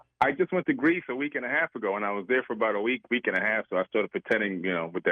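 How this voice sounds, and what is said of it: Usual voice. Nothing is said of it.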